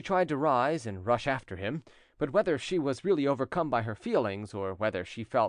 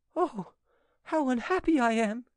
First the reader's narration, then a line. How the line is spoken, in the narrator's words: exclaimed Angelique